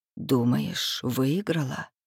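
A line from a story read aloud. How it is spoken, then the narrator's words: Quiet whisper. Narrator (Russian): шепит она тихо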